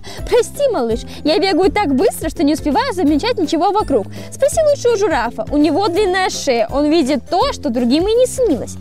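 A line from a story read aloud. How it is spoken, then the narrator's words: Laughing, apologetic. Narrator (Russian): Зебра рассмеялась, а потом сказала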